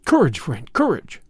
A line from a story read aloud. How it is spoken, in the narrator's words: I cried